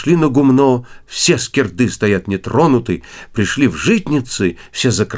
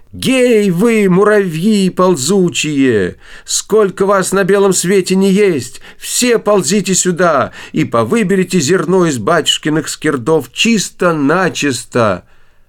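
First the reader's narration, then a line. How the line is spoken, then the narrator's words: Loud shout. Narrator (Russian): Василиса Премудрая закричала громким голосом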